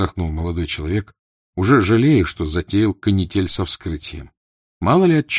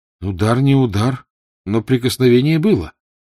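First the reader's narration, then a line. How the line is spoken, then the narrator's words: Exclaimed. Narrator (Russian): воскликнул он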